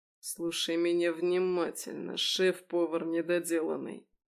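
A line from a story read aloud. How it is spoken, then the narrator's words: Low snakelike hiss. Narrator (Russian): Он понизил голос до змеиного шипения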